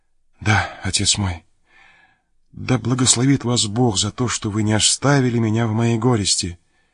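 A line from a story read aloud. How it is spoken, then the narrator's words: Woman's quiet, trembling whisper. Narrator (Russian): Женщина прошептала тихим и дрожащим голосом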